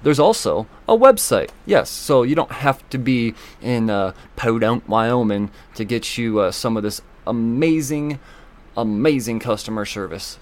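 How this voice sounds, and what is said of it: Sudden put-on accent. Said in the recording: “I don't know where that accent just came from.”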